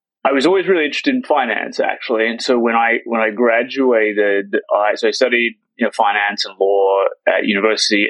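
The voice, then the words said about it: Slightly odd Australian accent. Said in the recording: “slightly odd accent, I grew up outside of the US. I grew up in Australia”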